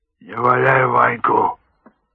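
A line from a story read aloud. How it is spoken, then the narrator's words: Hoarse, muffled by bandages. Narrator (Russian): прохрипело из-под бинтов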